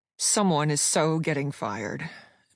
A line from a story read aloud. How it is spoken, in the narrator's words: B bit out through gritted teeth